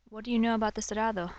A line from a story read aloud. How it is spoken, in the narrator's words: Javi asked